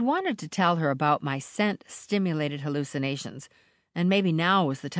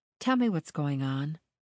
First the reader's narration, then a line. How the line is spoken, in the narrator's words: said softly